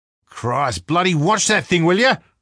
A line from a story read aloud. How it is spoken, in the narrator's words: Rako shouted